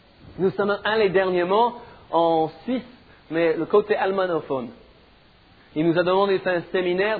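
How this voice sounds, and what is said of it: Slight foreign accent in French. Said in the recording (French): “Vous comprenez mon petit accent? C'est pas trop difficile, n'est-ce pas?”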